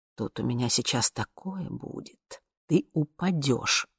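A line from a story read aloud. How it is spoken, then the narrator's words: Muttering. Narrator (Russian): бормотал он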